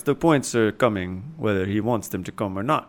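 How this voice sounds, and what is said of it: Slightly Indian put-on accent. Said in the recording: “I don't know what that accent was ... it was a little bit uh, Indian ... Not enough”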